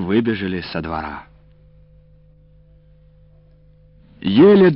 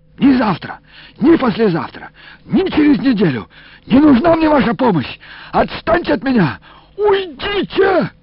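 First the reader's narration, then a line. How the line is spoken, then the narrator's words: Shrill squeal. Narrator (Russian): завизжал Илико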